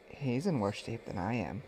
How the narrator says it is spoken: whispered Sophia

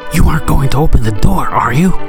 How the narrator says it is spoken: Clive hissed

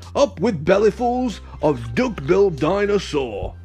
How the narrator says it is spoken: they shouted

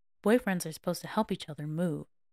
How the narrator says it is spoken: he grumbled

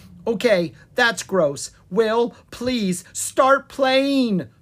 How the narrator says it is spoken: pleaded Lucas

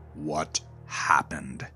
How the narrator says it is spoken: Eric growled at Gerald

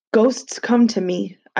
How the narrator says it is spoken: I said

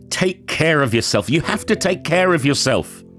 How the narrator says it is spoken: he could only shout

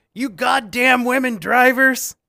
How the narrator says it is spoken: he yells

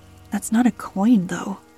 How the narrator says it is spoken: I muttered to Paige

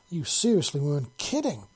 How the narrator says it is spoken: Tom exclaimed

